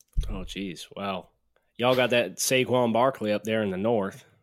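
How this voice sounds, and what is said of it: Put-on Southern American accent. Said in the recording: “I want a Southern accent. ... There's your Southern accent. That was a little bit more Alabama.”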